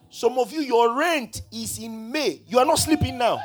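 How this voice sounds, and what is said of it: Shouting loudly. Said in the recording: “I'm shouting, Abi. I'm shouting.”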